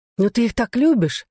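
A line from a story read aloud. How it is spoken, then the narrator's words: Exclaimed. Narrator (Russian): воскликнула Глэдис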